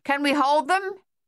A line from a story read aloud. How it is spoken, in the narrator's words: Captain Egan shouted to Thaddeus